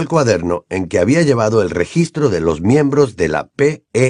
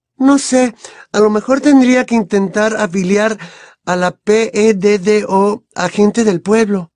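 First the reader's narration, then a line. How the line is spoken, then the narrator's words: Thinking aloud. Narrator (Spanish): dijo Hermione, como si pensara en voz alta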